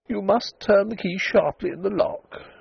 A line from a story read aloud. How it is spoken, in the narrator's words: she said weakly